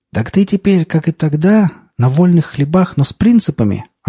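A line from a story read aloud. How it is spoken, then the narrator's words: Joyful drunken bellow. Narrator (Russian): радостно улыбаясь, прорал Виталий, дыша сивушным перегаром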